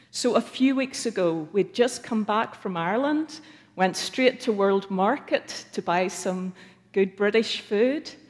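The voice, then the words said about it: Speaks with a British Isles accent. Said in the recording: “I could hear they were interested in this accent. ... "That's a beautiful accent."”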